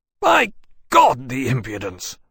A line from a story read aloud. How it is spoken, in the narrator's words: Wellesley said savagely, in no low voice